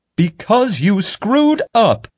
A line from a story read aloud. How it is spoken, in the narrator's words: Pete screamed